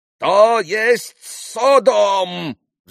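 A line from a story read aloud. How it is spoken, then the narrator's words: Sudden roar. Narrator (Russian): взревел вдруг пан Врублевский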